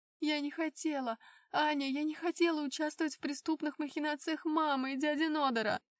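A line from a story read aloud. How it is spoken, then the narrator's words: Sobbing. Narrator (Russian): Эльза всхлипнула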